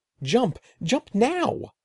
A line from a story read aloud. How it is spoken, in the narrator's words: shrieked